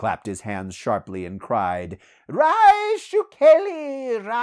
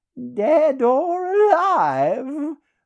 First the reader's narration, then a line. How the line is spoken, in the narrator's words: laughed Peleus